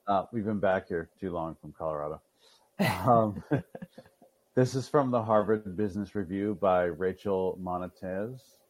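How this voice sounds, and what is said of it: Boston accent. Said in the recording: “Your Boston accent really is coming back out.”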